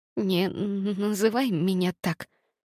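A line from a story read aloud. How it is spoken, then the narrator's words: Trembling whisper. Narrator (Russian): прошептала я дрожащим голосом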